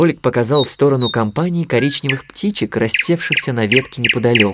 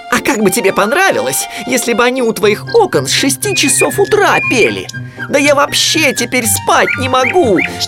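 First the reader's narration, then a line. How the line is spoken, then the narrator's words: Yelling. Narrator (Russian): вопил он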